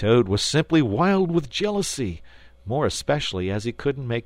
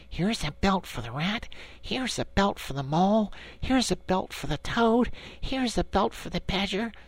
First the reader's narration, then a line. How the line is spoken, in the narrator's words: The anxious and laborious Rat muttering